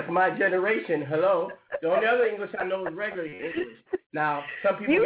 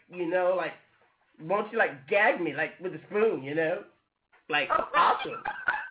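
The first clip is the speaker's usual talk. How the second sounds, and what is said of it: Exaggerated valley girl speech. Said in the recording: “I'm not a valley girl. ... you told me to talk that white English”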